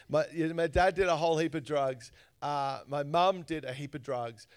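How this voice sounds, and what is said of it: Australian accent. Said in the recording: “I grew up in Australia. You probably realize I sound a little different.”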